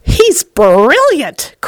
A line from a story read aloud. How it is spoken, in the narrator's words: cried Grandpa Joe